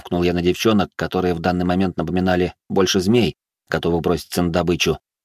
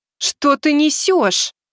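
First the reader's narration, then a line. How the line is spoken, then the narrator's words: Contemptuous exclamation. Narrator (Russian): презрительно воскликнула Элиза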